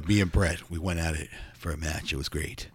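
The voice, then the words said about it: Imitates another person's voice. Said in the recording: “That's my Tom McGee impersonation.”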